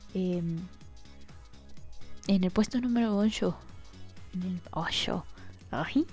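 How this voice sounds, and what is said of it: Northern accent slipping out. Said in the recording (Spanish): “Se me sale el acento norte de vez en cuando.”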